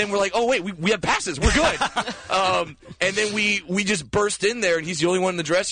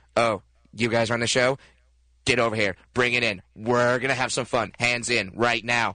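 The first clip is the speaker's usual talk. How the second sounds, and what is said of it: Imitates another person's voice. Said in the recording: “that your impression of Jack Black? ... This is my impression of Jack Black right here.”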